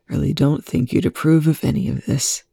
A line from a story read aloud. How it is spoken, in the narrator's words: Young whispered